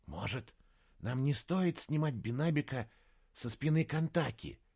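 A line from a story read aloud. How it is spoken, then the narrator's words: Whispered question. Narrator (Russian): шепотом спросила Мария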